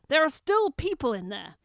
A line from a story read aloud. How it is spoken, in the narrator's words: The bigger man had simply yelled over his shoulder